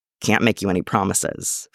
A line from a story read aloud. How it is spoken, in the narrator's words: Frank mutters gruffly